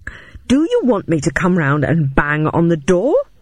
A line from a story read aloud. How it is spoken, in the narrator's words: asked, my voice rising further